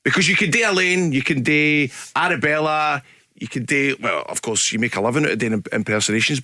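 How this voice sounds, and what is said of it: Strong Glaswegian accent. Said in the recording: “Glasgow's own radio ... your accent, it's like the Himalayas of trying to do an impression of. It is just so full of unexpected, like, vowels and corners”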